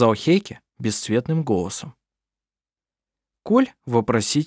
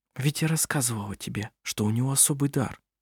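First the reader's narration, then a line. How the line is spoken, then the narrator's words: Whispered. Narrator (Russian): прошептала она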